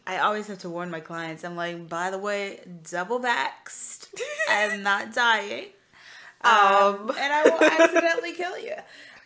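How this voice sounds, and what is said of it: Rough, partly lost voice. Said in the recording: “I lost my voice a little bit, so it sounds a little... It sounds a little rough.”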